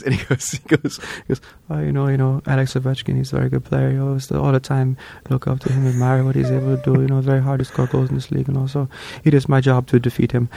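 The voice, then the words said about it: Impression of Patrick Laine. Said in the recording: “he actually did a Patrick Laine for me ... are you doing the bit back to me?”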